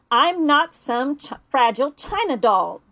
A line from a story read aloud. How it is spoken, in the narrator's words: she snapped